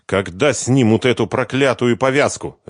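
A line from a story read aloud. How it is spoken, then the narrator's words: Barking. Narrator (Russian): рявкнул он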